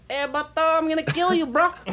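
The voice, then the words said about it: Put-on Mexican accent. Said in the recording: “Why does it got to be a Mexican accent? ... That's surprisingly accurate.”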